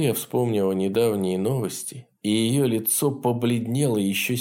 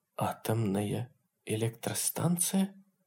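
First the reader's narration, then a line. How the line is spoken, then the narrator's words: Whispered. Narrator (Russian): прошептала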